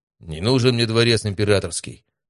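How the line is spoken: Calm, proud. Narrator (Russian): на удивление спокойно, но с гордостью в голосе сказал Матвей

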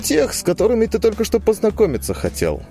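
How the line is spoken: Sarcastic. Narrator (Russian): язвительно отозвался Лузга

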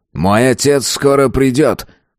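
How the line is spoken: Snort while turned away. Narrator (Russian): хмыкнул, отвернувшись в сторону

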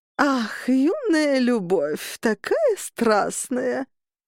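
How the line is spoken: Old woman drawling. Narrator (Russian): протянула бабуля Фрида

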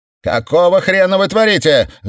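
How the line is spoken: Yelled. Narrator (Russian): завопила Мор

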